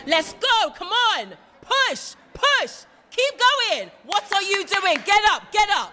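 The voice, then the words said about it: Loud shouted coaching. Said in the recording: “Might turn the volume down on that bit.”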